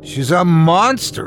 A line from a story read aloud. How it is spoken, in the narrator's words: cried